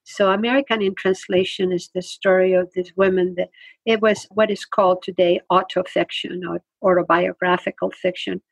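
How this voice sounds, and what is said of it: Immigrant's foreign accent in English. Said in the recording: “being an immigrant, because you can hear my accent when I speak”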